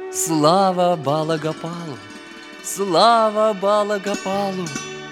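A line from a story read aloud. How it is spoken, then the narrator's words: Ecstatic repeated shouting chant. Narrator (Russian): пел, смеялся, кричал, снова и снова повторяя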